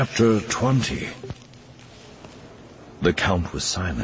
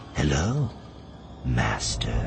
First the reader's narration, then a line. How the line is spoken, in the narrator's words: whispered in his ear